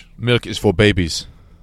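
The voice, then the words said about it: Arnold Schwarzenegger impression. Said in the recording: “Arnold Schwarzenegger... Which I could tell by the accent... It was either that or Radioactive Man from The Simpsons”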